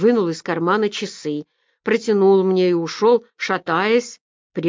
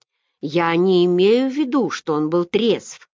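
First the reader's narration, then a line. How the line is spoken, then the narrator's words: Plain. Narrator (Russian): ответил Магер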